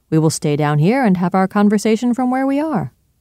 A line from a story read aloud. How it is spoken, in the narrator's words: returned Utterson cheerfully